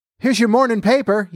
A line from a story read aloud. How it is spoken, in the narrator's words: yelled a newsboy